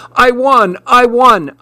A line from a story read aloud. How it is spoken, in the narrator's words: I shouted